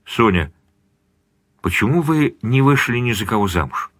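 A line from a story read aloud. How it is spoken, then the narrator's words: Quiet question. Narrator (Russian): Эдик тихо спросил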